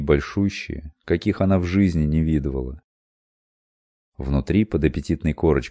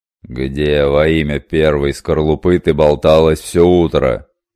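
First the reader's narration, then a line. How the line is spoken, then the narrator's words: Menacing angry question. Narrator (Russian): Грозно осведомился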